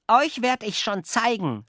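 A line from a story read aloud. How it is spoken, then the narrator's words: Shouted. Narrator (German): schrie Jockel den Spatzen zu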